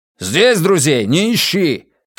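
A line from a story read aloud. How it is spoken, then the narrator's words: Shout. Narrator (Russian): крикнул Бастиан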